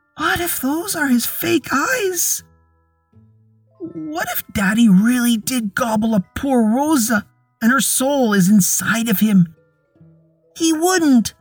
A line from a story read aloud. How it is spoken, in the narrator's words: Ellen sobbed